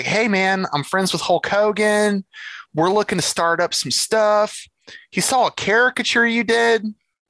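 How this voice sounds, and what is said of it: Florida beach dude voice. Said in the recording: “he's like the epitome of Florida beach dude. You talk to him on the phone and that's what you hear ... he'll hate my impersonation.”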